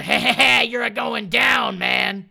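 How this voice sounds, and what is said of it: Bullyish cartoon character voice. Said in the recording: “That's very bullyish.”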